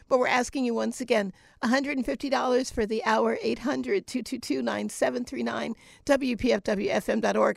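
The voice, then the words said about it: Strained, failing voice. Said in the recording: “My voice is failing me. You hear that? I've been here since this morning.”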